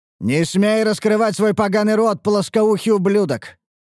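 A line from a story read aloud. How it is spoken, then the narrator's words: Furious roar. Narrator (Russian): яростно проревел каменный эльф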